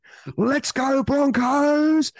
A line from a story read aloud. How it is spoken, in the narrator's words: cheer, and barrack and shout